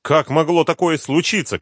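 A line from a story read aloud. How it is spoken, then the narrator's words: Shouted. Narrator (Russian): кричал он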